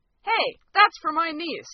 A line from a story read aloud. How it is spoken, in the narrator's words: say loudly